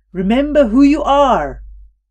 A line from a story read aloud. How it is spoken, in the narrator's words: the old man on the riverbank yelling